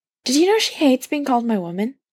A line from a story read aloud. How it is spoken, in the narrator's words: Brendan asks